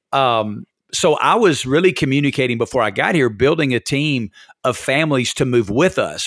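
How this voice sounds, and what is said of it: Non-West Coast regional accent. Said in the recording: “My accent gives me away a little bit”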